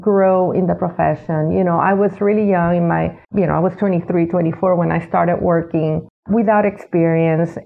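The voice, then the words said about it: Slight Hispanic accent. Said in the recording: “I was Hispanic ... I have a little bit of an accent now. I have to say a little bit because my accent was a lot thicker then.”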